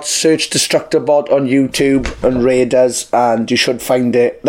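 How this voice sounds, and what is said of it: Worn-out, strained voice. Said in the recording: “My voice is knackered as well as my head ... My voice has got worse as this has gone on.”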